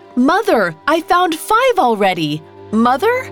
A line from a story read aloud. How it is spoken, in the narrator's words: shouted